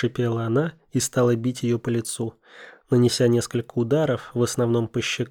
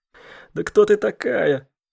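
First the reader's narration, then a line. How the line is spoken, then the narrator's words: Hoarse frightened mutter. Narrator (Russian): хриплым голосом пробормотала Екатерина, смотря на неё испуганными глазами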